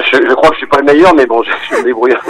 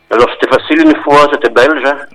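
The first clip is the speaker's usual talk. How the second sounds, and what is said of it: Well-done put-on Belgian accent. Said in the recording (French): “vous faites particulièrement bien l'accent.”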